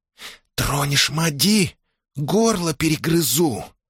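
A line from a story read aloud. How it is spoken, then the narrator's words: Furious hissing whisper. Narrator (Russian): свистящим шепотом пообещала бешеная девка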